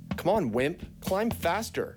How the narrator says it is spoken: She shouted down to him

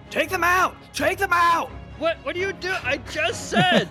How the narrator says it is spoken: he yells

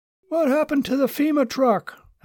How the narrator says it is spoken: a man blurted out

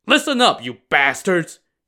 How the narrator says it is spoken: he barked to the two guards

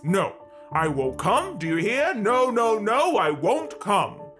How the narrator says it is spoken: He called out in a loud voice

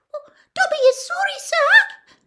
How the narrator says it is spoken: squeaked Dobby anxiously

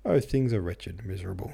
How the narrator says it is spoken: said Oblonsky, and sighed heavily

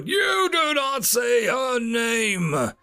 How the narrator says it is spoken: Darth Harmonus roared out, as feedback squealing

